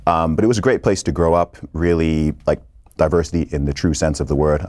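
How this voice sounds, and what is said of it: Accent that doesn't sound British. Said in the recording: “my accent doesn't even sound British, because I lived in Saudi Arabia and I was in the American school system for such a long time”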